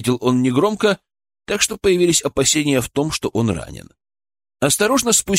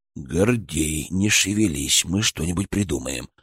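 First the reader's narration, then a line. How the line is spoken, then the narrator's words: Whispered promise. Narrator (Russian): шепотом пообещал Гурьян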